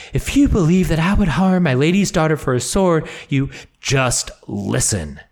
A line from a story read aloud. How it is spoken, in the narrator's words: he snapped, angered by her assumption